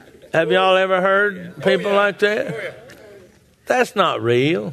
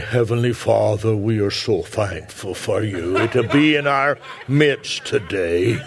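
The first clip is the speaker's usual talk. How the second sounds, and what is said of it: Formal professional preacher voice. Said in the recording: “put on my professional voice”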